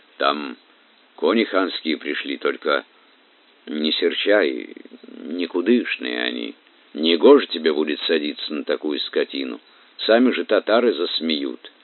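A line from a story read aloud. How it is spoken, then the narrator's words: Anxious stutter. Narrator (Russian): Дружинник заикаясь, с тревогой сказал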